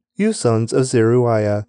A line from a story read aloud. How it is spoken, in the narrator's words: David exclaimed